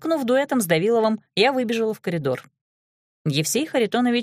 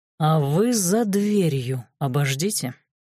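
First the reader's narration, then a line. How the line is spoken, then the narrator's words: Menacing drawl. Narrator (Russian): протянул шеф с угрозой в голосе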